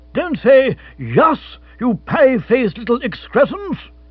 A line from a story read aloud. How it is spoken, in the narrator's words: he thundered